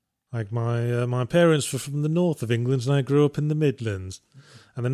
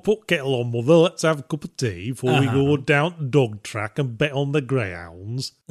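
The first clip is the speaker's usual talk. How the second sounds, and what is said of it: Put-on northern English accent. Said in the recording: “the north of England has got that very”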